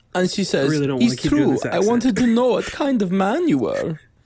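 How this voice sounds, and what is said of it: Somewhat effeminate put-on German accent. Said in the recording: “I feel like my German accent's just a little too effeminate... A touch... I don't have a German accent.”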